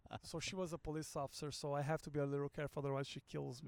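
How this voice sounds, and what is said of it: Noticeable foreign accent. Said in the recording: “And you have an accent.”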